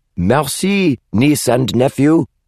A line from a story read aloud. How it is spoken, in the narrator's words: he shouted at the Cabras